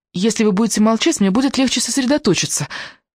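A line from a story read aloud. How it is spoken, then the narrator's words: Very respectful tone. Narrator (Russian): весьма уважительным тоном предложила она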